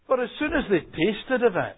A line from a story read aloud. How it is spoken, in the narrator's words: they cried out